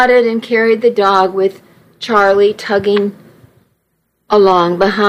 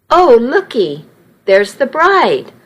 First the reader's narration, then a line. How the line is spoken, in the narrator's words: one older lady exclaimed